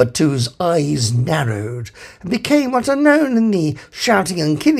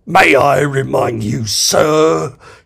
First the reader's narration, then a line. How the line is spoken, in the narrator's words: hissed number two of the captain